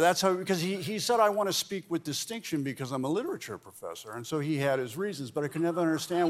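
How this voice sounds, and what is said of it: Usual voice. Nothing is said of it.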